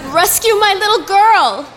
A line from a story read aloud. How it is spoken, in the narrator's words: shouted Mommy